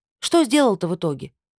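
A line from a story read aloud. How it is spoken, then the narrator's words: Dazed, then normal speech. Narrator (Russian): огляделся вокруг осоловелыми глазами и, наконец, заговорил нормально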